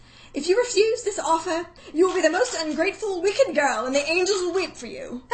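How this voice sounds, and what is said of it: Rex Harrison impression, posh English accent. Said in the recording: “Rex Harrison ... From My Fair Lady. The whole accent.”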